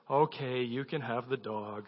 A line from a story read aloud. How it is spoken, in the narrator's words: gave a deep sigh and said